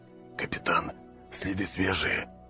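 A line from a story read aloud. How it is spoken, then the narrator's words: Whisper. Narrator (Russian): прошептал сержант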